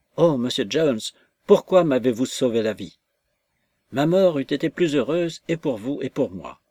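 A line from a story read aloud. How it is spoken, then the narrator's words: Despairing cry. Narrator (French): elle s'écria avec l'accent du désespoir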